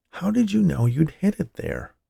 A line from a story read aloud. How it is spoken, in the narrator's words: whispered Paul